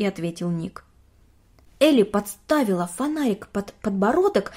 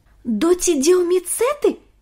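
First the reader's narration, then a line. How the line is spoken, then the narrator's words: Exclamation. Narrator (Russian): воскликнул Ник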